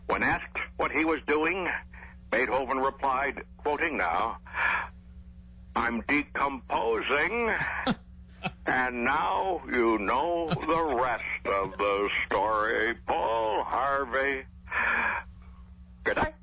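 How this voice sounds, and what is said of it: Bill Clinton impersonating Paul Harvey. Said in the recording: “President Clinton doing his best Paul Harvey. You do a great Paul Harvey impersonation.”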